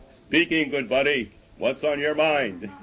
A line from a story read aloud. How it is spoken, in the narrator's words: a booming voice came out of the radio